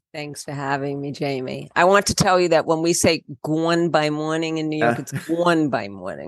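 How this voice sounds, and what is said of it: Speaks with a distinctive accent. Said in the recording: “I love your accent.”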